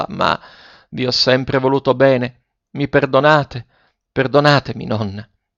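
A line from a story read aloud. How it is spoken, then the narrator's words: Struggling, trembling voice. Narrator (Italian): continuò Ferruccio a stento con la voce tremula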